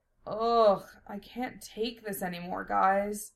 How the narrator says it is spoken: Lena groaned

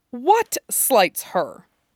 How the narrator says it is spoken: Dorian hisses

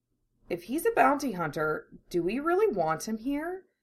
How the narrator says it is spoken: She asks softly

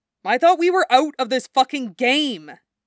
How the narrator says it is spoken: Dave blurts out

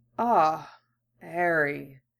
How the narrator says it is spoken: Dumbledore's voice came, rasping through the oppressive dark

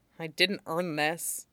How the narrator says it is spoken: he mutters

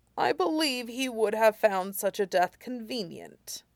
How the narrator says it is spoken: Iroh said coldly

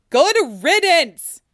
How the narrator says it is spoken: he shouts back through the wood

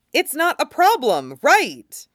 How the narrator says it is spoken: Brink says a little too loudly

